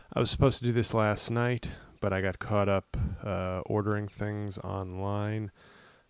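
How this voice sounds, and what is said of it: Tired, exhausted-sounding voice. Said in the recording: “I am exhausted. I don't know if you can tell from my voice.”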